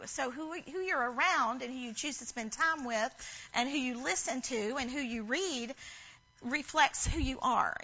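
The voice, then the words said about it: Southern American accent. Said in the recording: “I talk Southern anyway, but when I'm around y'all, I even get more Southern”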